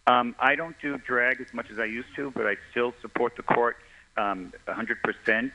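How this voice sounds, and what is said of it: Pleasant radio-style speaking voice. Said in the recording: “you do have a nice radio voice”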